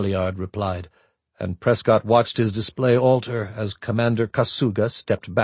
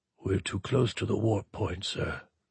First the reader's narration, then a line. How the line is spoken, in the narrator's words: Kasuga said too softly for anyone else to hear